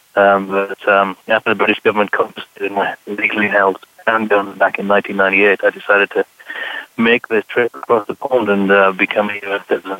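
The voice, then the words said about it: British accent. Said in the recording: “my background isn't covered up with my accent”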